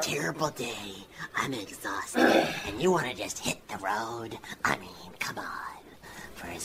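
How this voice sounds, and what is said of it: Usual voice. Nothing is said of it.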